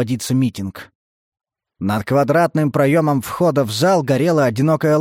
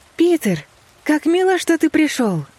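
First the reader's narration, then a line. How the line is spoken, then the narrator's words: Cheerful. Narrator (Russian): весело сказала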